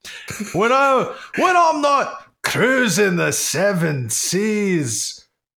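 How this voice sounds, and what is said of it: Faltering put-on Scottish accent. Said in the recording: “Scotch style ... I can't keep this up. Oh no, there's been a terrible accident and my accent is gone”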